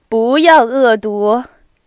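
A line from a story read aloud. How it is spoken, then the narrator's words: Laughing, repeating. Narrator (Chinese): 有人笑着重复说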